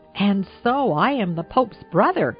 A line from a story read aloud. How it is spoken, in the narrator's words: he exclaimed, with a comical assumption of dignity